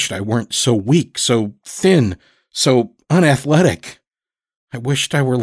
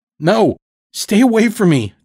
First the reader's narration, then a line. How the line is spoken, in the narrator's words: Todd screamed at me